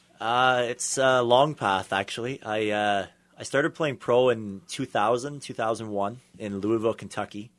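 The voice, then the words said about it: Canadian accent. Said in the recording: “I could hear the Canadian accent just coming out of your mouth”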